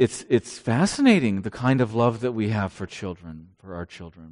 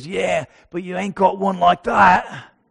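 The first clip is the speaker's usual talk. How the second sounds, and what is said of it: Bad imitation Australian accent. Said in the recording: “That was my bad Australian accent.”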